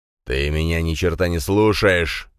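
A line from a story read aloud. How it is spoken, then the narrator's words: Growling. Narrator (Russian): зарычал Дракен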